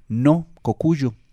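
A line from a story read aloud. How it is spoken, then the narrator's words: Plain. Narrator (Spanish): dijo la mora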